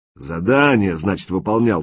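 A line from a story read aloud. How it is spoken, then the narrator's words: Angry interruption. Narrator (Russian): зло перебил Клоп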